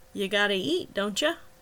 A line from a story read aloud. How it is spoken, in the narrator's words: His voice now oddly cheerful